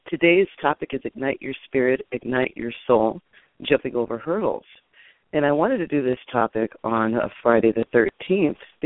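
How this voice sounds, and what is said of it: Scratchy voice. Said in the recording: “excuse my voice. A little scratchy this morning... my scratchy voice”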